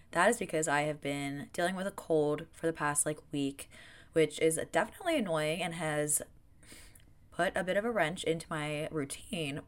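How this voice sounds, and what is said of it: Nasally, raspy voice. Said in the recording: “my voice sounds a little like nasally slash raspy”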